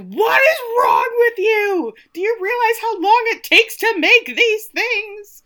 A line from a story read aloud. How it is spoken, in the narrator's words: Louise, being the calm and rational person that she is, screams